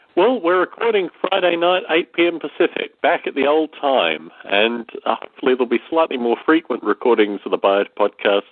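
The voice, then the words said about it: Slightly congested, sick-sounding voice. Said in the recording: “As you may hear from my voice, I've had a slight cold, which has really become a kind of lingering pet cold”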